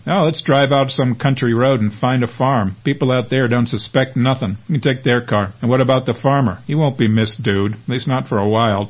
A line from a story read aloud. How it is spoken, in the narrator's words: chuckles Ed